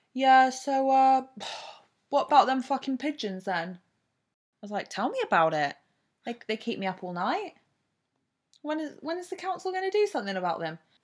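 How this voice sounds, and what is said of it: Put-on Essex accent, done badly. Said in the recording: “She doesn't live in Essex, by the way. ... Really fucked up the accent here.”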